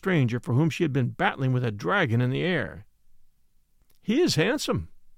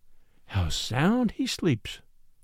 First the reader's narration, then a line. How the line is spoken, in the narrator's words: murmured the girl